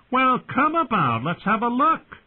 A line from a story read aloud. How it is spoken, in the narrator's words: Pip called out